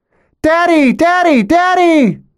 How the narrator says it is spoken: shriek

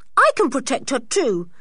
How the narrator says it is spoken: said George indignantly

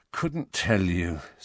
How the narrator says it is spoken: said Harry wearily

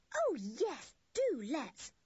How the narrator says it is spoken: cried Anne in delight

